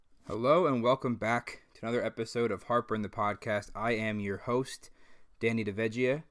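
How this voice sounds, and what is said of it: Out of breath, winded voice. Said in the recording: “I'm sorry if I'm out of breath ... I'm, like, really winded”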